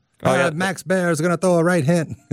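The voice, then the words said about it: 1920s boxing announcer voice. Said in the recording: “You went straight Cinderella Man guy on the mic for the calling the boxing match in the 20s ... 20s announcer”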